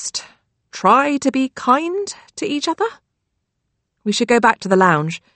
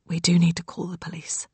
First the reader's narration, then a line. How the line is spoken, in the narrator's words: Rose whispers